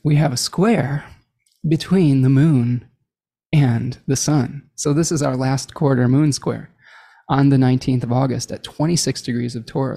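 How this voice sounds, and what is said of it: Soft ASMR-style voice. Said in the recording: “in my ASMR voice”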